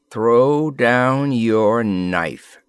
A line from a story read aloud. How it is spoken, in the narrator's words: said Glavor's voice slowly